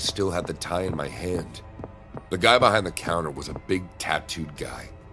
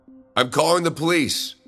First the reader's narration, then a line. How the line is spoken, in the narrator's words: I shouted